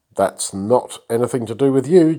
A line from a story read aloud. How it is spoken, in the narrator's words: Jehu replied